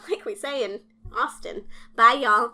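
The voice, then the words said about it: Put-on Southern US accent. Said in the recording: “That's my best Southern ... Southwestern okay, accent.”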